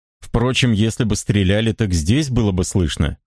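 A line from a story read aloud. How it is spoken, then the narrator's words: Plain. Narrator (Russian): говорит старший помощник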